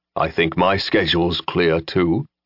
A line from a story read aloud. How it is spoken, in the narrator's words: Michael added dryly